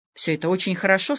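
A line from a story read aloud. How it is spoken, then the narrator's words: Plain. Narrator (Russian): сказал герцог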